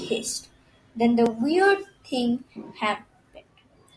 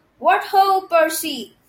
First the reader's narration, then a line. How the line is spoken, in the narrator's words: shouted